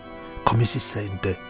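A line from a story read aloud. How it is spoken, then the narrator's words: Whispered close to ear. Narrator (Italian): gli sussurrò vicino all'orecchio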